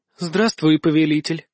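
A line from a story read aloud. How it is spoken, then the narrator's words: Languid breath in ear. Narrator (Russian): томно выдохнула мне прямо в ухо Альканиэль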